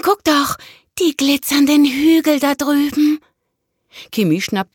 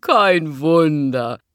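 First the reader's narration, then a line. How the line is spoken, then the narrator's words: Laughing. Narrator (German): lachte Konstantin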